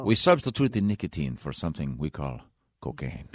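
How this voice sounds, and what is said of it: Put-on Mexican accent, sounds Italian. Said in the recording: “What the hell accent was that? ... That's my Mexican accent. ... that's a pretty darn good Mexican. ... That was more Italian, I think.”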